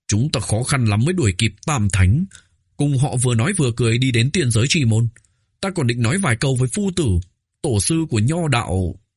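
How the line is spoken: Angry, trembling voice. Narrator (Vietnamese): Sầm Phu Tử vẫn còn trừng mắt tức giận, rõ ràng vẫn chưa nguôi giận, run rẩy nói

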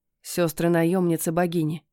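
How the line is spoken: Whisper. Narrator (Russian): шепнул он

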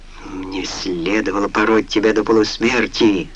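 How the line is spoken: Through gritted teeth. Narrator (Russian): сказал он сквозь зубы

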